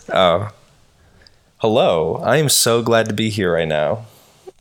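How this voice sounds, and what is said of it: Polished radio announcer voice. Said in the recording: “use your radio voice”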